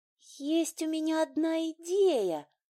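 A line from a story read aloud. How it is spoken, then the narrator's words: Timid announcement. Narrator (Russian): Наконец робко объявила Эйлин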